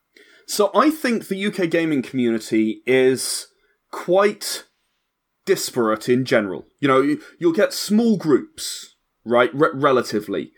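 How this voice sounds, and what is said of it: British English accent. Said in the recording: “you're from the UK, as one can tell from your wonderful accent ... the accent is a giveaway”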